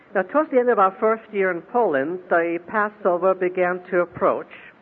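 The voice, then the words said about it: Russian and Polish accented English. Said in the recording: “We lived in Poland for a bit over a year, which should explain a second portion of the accent that you're listening to this morning.”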